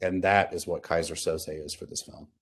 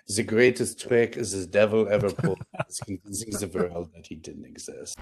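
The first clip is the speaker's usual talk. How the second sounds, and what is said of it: Put-on French accent. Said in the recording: “the quote with a French accent”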